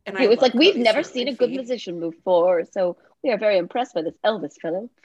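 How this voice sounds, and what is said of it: Mixed British and Southern accent. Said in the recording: “your like half British accent, half Southern accent”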